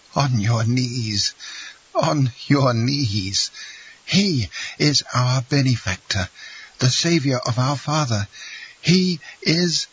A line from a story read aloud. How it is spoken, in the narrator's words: Morrel exclaimed in a voice choked with sobs